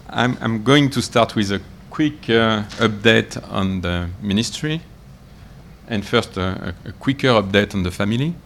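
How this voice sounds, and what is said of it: French accent. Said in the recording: “you will have to cope with a French accent”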